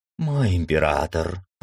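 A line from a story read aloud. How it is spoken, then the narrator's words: Purring. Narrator (Russian): промурлыкала старшая мрау охраны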